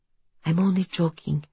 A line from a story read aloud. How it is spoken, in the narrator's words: Franca whispers